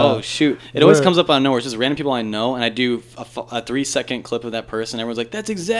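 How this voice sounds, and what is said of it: Usual voice. Nothing is said of it.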